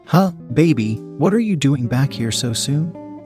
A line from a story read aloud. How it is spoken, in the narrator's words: she asked in a confused tone